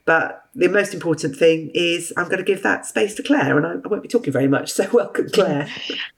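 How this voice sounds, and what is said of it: Hoarse voice from a cold. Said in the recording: “you can tell I've got a bit of a cold, so I'm sorry I'm a bit hoarse,”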